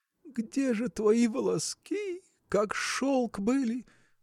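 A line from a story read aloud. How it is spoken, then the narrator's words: Tearful murmuring. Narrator (Russian): приговаривала она сквозь слезы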